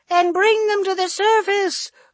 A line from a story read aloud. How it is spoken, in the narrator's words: another woman screeched